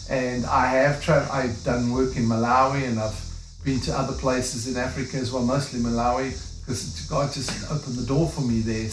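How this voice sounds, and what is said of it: South African accent. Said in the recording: “I'm from South Africa. That's why I've got a funny accent”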